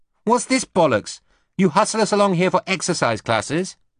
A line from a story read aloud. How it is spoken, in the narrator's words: Susie snapped